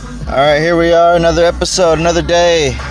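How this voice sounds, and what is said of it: Tired-sounding voice. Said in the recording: “Forgive me if I sound a little tired today.”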